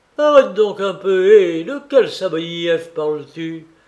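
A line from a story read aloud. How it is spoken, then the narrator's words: Frantic young clerk shouting. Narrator (French): s'écria le jeune commis revenu de sa stupéfaction et tout hors de lui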